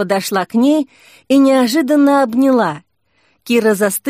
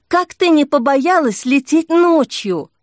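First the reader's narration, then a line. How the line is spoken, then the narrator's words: Exclamation. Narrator (Russian): воскликнула Снежка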